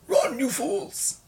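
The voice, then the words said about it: Imitates a wizard character's voice. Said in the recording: “my impersonation of Gandalf”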